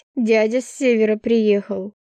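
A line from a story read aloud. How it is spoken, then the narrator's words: Wry snort. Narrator (Russian): хмыкнула я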